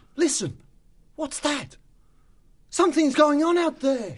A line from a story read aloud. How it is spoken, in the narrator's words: said excitedly